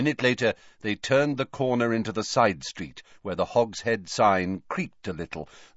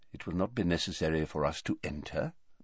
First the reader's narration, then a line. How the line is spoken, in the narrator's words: muttered Dumbledore